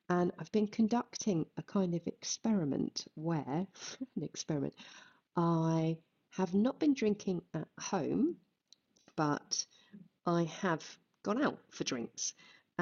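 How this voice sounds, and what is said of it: Rough, tired-sounding voice. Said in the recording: “I am a bit hungover. You can quite possibly hear that in my voice.”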